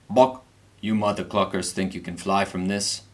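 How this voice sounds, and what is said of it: Deep character voice. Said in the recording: “A deep voice responds,”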